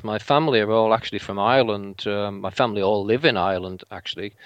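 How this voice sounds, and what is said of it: Mixed English accent, vaguely Liverpool. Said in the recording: “I knew I heard a different accent in there... I can hear something else in there... my accent is a real mixture of places... I'm the only English one with a very English accent... my accent at the moment is vaguely Liverpool”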